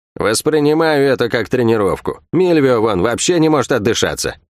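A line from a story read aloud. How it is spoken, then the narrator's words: Chuckling. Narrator (Russian): Третинец хохотнул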